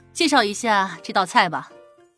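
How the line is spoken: Calm, faintly smiling question. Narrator (Chinese): 陶南方淡淡一笑，仿佛什么事都没有发生，问服务员

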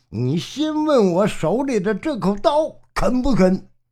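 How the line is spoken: Furious. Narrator (Chinese): 陈达大怒

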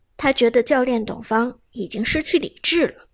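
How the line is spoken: Deep, grave voice. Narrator (Chinese): 队长陈默然沉声说道

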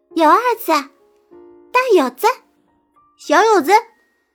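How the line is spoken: Children's taunting chant. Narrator (Chinese): 街上的孩子们，嘴里边喊着

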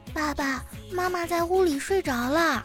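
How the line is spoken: Quiet hushed voice. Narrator (Chinese): 妮妮小声的说

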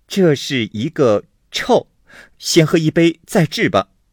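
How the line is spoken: Laughing. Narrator (Chinese): 鸳鸯笑道

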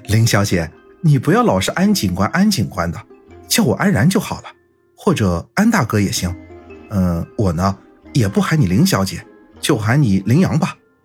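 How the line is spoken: Cheerful, grinning. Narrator (Chinese): 安然依旧笑嘻嘻说道

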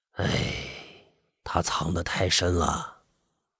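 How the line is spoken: Sighing. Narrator (Chinese): 那个人叹了一口气

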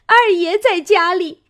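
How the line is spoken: Frightened crying. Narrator (Chinese): 那小丫头子 听见凤姐儿要烧了红烙铁来烙嘴，方哭道

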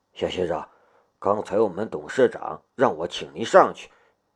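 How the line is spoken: Low voice. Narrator (Chinese): 管理员却在夏雷的身边低声说道

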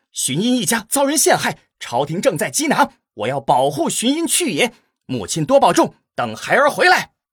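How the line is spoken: Loud declaration. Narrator (Chinese): 齐武大声说道

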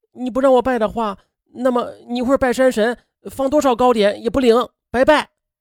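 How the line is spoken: Fierce shout. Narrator (Chinese): 景全力凶巴巴的喊道

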